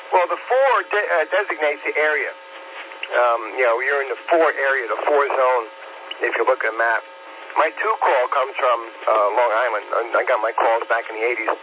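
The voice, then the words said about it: Slight New York accent. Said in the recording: “I did pick up a little bit of a New York accent from you there as well.”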